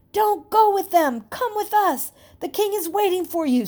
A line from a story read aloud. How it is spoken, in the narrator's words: Stephen and Timothy began to shout